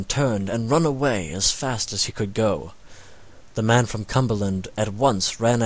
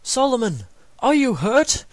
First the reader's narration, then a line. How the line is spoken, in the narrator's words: they cried